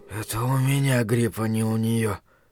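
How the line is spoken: Faint, drifting whisper. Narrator (Russian): прошептал он, вновь выныривая из небытия

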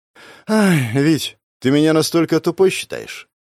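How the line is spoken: Sighing. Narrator (Russian): Вздохнула она

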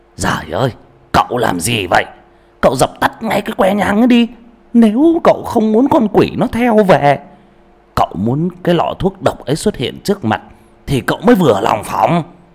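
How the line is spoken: Panicked loud shout. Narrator (Vietnamese): giọng nói hoảng hốt của ông Trịnh quát to

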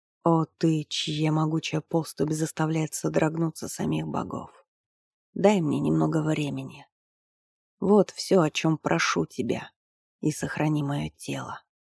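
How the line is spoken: Whispered in foreign tongue. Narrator (Russian): прошептал Тремиан по-ремейски

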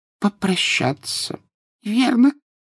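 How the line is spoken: Squeaky voice. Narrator (Russian): пропищал профессор Флитвик

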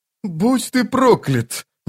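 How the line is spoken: Sigh. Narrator (Russian): вздохнул

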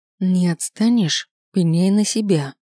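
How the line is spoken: Spiteful quiet hiss. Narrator (Russian): Злобно прошипела так, чтобы слышал лишь Кэрол

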